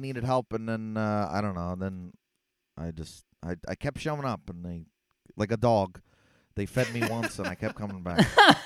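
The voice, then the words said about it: Stereotypical Philadelphia accent. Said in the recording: “that stereotypical Philly accent? Is it real?”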